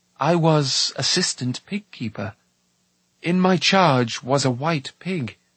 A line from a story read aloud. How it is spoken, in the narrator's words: Taran began, speaking as slowly as he dared